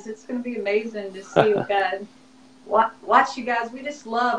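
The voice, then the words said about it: Slurred speech. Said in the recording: “I'm slurring on my words here”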